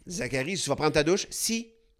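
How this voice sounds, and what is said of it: Imitated France French accent. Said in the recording (French): “il était rendu avec un accent français”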